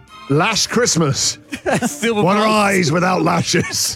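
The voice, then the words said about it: Put-on Scottish accent. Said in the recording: “I don't know why I've got a Scottish accent there.”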